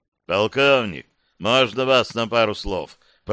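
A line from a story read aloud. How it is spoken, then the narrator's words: Deep bass voice. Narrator (Russian): пробасил он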